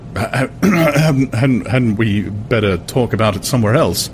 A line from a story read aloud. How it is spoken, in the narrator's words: He stammered, looking horribly uncomfortable